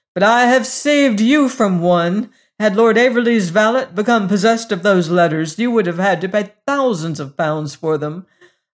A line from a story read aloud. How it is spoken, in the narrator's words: cried Hagar wrathfully